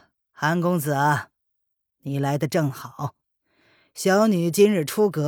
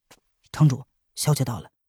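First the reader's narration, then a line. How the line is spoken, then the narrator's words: Low whisper in ear. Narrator (Chinese): 蒙面男子低声在难得换了红色锦衣的中年男子耳边说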